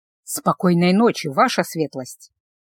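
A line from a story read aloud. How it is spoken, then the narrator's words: Soft sigh. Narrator (Russian): Гелла тихонько вздохнула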